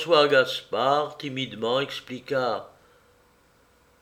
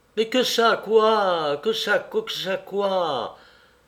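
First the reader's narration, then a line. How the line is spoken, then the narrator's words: Flustered panicked nobleman exclaiming. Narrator (French): s'exclama encore le marquis, qui perdait tout à fait la tête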